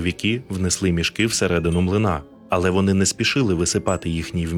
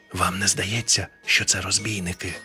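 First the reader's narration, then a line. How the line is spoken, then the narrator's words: Ghost whispering a question. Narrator (Ukrainian): пошепки спитав привид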